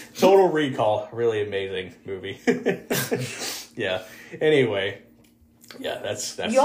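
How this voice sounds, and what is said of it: Usual voice. Nothing is said of it.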